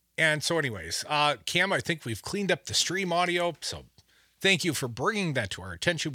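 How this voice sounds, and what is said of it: Booming natural radio announcer voice. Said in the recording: “I sound like I was subbing for God. I always sound like that, Cam. That's just my natural radio voice.”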